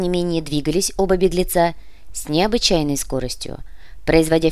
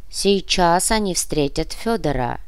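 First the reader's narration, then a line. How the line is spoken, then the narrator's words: Muffled, flat. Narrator (Russian): глухо прокомментировал Адольфус Пукас, правая рука Красауласа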